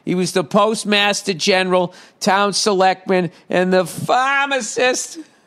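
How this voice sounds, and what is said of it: Put-on Boston accent. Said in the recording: “let me do that in Boston accent.”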